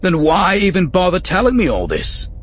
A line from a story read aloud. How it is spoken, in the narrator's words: Bane blurted out, frustrated